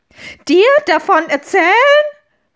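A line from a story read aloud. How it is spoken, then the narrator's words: Witch shouting. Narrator (German): schrie die Hexe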